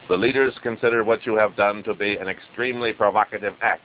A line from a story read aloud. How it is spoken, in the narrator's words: Wrong said